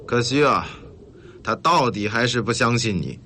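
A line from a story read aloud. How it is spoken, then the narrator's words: Sighing. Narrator (Chinese): 瓦西里 叹息地对廖飞说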